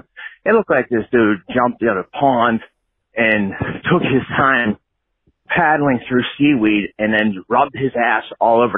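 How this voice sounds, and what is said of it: Out of breath, panting speech. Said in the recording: “I'm out of breath because I'm walking”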